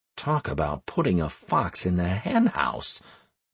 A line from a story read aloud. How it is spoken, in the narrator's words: muttered Anastaria